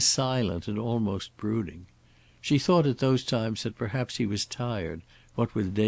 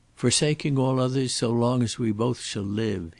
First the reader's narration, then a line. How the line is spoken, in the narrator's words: he said unsteadily